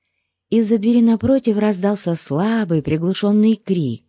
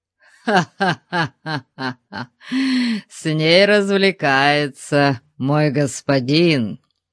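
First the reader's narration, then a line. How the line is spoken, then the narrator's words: Laughing. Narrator (Russian): засмеялся Ваал Птеор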